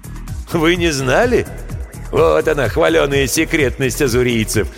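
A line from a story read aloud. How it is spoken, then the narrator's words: Hoarse laugh. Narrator (Russian): хрипло рассмеялся Гемильтен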